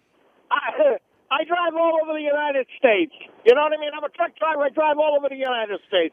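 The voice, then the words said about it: Boston accent. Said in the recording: “I lived in Boston for about 7 or 8 years. It's always a pleasure to hear that accent ... That's a great accent.”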